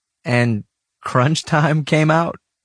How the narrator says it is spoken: I laughed

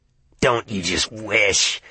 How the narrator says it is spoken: he sneered

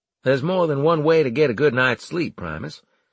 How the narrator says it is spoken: I said in a cheery tone

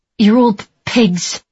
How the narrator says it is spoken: she snarled

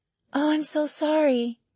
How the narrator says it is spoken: Janine whispered

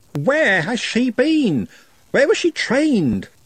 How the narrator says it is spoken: He, or conceivably she, squeaked

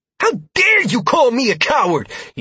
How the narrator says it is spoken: He spat at the dwarf

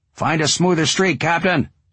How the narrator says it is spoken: Ron yells

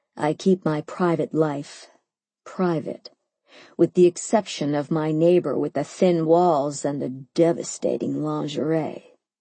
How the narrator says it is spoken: he said in a low voice that could melt, well, anything

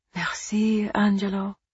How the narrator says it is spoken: Eva whispered

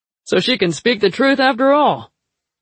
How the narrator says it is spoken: he exclaimed

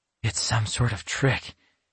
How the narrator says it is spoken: he murmured

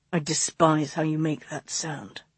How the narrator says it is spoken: he growled

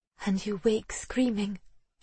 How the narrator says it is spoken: She asked, her voice barely more than a whisper

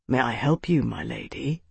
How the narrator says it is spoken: he asked quietly

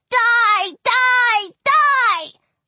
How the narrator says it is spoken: yelling

